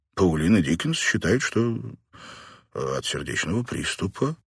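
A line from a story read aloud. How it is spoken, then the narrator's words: Uncertain. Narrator (Russian): неуверенно произнес Каллахан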